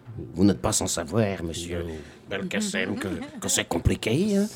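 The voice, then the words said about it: Put-on Belgian French accent. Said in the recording (French): “quand j'ai envie de dire un truc sérieux, je prends l'accent belge”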